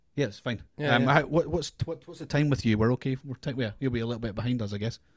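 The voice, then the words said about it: Scottish accent. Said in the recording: “struggling with your accent... Everybody struggles with the accent... I love the Scottish accent”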